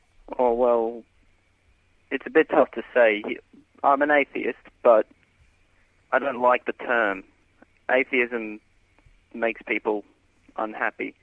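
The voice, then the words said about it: Australian accent. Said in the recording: “You're out in Australia, as we can tell from the accent already.”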